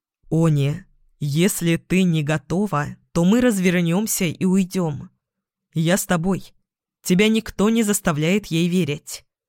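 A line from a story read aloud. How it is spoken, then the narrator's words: Plain, young man. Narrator (Russian): сказал юноша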